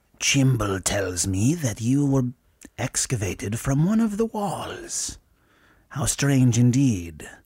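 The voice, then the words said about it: Whispery witch doctor character voice. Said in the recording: “It's the whispery thing. It's just a witch doctor thing. ... It's the witch doctor accent.”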